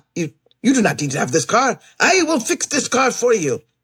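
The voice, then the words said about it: Heavy Eastern European accent. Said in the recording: “He has a heavy accent, Eastern European accent.”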